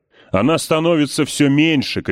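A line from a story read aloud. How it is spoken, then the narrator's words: Shouting. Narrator (Russian): кричал Сол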